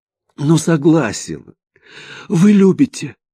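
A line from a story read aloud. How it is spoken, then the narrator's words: Frightened. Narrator (Russian): испуганно поправился Романов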